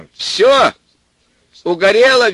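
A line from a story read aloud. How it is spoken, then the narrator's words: Cheerful shout into phone. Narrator (Russian): весело закричал он в трубку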